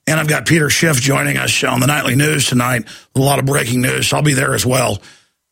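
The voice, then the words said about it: Strained, partly lost voice. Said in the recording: “it is taking my voice today, coating my larynx. I kind of lost my voice earlier ... I lost my voice if it sounds a bit different there”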